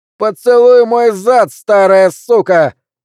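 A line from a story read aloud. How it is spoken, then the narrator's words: Shouted. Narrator (Russian): выкрикнул Джоуи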